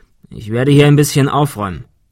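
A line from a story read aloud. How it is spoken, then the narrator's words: Plain. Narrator (German): sagte er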